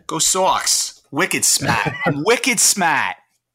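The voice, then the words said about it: Put-on Boston accent. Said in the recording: “a Boston accent”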